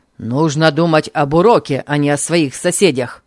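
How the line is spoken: Stern pronouncement. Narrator (Russian): строго изрек он

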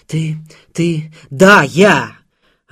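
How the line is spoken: Incautious shouting. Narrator (Russian): Она кричала, забыв об осторожности

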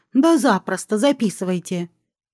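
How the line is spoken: Snorting reply. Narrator (Russian): фыркну и отвечу

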